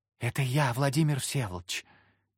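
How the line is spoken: Girl's whisper. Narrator (Russian): послышался девичий шепот

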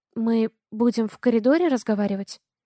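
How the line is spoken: Uncertain question. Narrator (Russian): неуверенно спрашиваю

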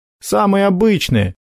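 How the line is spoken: Snort. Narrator (Russian): хмыкнул Макар

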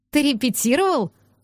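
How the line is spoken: Laughing out loud. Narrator (Russian): расхохоталась

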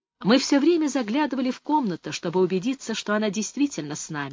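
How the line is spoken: Plain. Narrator (Russian): сказала Мэри

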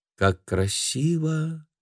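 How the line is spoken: Thoughtful drawl. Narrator (Russian): задумчиво протянула Хелена

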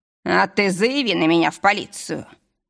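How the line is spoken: Growl. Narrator (Russian): рыкнул

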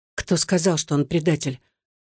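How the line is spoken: Quiet. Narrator (Russian): тихо произнесла Татьяна

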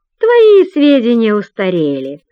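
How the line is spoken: Mocking. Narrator (Russian): насмешливо отвечает она

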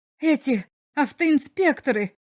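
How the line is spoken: Visitor's exclamation. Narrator (Russian): воскликнул посетитель

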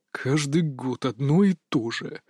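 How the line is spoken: Deep grumbling. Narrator (Russian): басовито ворчал Илья Васильевич

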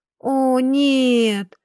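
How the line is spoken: Disappointed, indignant sighing drawl. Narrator (Russian): со вздохом разочарования протянула Клементия и возмутилась

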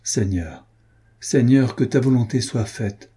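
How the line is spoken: Exclaimed. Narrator (French): s'écrie-t-il

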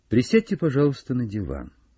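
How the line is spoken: Calm offer. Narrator (Russian): спокойно предложил Холмс

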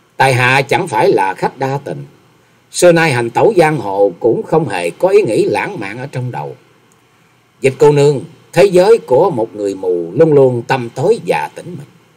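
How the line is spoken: Slow smiling speech. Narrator (Vietnamese): Nhậm Xương Bạch mỉm cười chậm rãi nói

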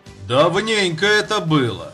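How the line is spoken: Resonant deep bass. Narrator (Russian): сказал он звучным утробным басом

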